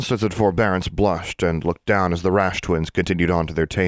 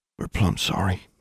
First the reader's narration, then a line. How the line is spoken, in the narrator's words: Constance said quietly